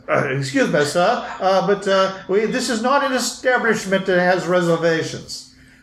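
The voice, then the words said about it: Attempted English accent. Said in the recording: “I can't do an English accent.”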